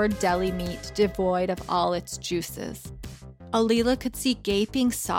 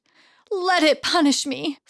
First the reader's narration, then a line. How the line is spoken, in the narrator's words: Sunshine said through gasps as she greedily sucked in air